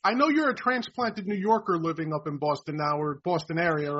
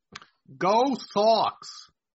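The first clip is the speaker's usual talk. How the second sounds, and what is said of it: Attempted Boston accent, not quite convincing. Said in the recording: “my best accent from Beantown ... Not bad. ... Not quite. You're not quite there”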